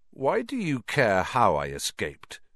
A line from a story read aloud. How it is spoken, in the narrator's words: said Harry slowly